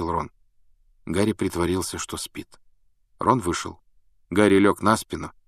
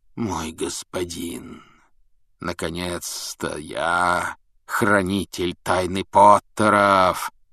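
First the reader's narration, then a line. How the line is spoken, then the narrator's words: Shrill cackle. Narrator (Russian): Его собеседник пронзительно захохотал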